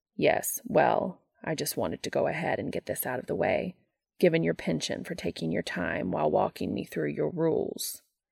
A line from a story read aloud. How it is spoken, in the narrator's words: Castiel replies icily